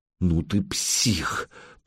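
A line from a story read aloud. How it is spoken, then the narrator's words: Hoarse rasp. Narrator (Russian): прохрипела Алена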